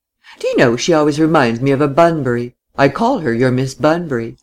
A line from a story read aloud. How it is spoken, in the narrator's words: Laura laughed